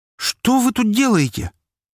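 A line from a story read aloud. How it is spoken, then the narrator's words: Shocked exclamation. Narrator (Russian): воскликнула Анастасия, шокированно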